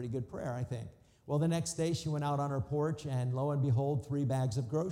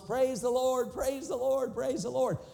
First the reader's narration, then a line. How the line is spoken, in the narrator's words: shouting at the top of her lungs